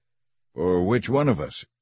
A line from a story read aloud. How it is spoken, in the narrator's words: Jehu asked